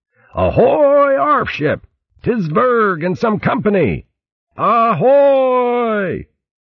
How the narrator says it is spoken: Fermo felt recovered enough to roar out in a thunderous baritone

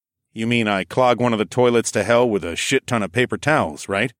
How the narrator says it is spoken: I snorted

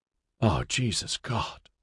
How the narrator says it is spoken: Mark groaned as he took in the sight

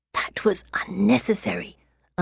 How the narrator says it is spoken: I hiss

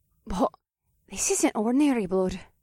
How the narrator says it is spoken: Faye said in a shaky voice

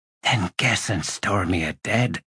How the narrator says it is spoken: whispered Bottle

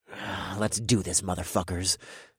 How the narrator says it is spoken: I growled

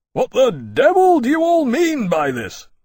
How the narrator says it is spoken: Lawrence bellowed, and let his voice carry over their heads

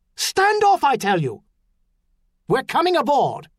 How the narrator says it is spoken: the shout from the pier, despite the Delphirakan accent of the shouter

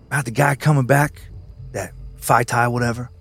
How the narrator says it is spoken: Doc responded quietly, thoughtfully

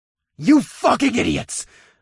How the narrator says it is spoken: I bellowed

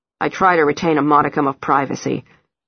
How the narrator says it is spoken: Henry snaps

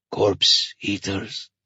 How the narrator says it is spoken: said in a low voice

